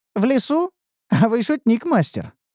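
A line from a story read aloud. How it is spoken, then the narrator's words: Laughing. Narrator (Russian): рассмеялась Неуру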